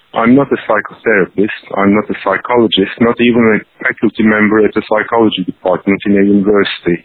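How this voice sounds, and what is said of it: Foreign accent, hard to understand. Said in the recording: “I'll continue to speak with my foreign accent. It's more difficult to understand.”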